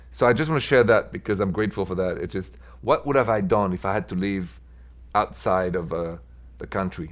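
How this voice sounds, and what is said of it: French accent. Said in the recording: “It was a French accent.”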